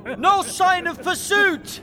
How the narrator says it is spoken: The messenger shouted in

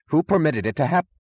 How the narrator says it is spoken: he began in a rising voice

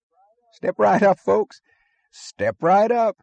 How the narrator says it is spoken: the barker was yelling cheerfully

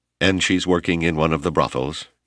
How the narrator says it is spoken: Yoriko asked coldly

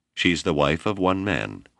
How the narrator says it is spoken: Whipple replied coldly

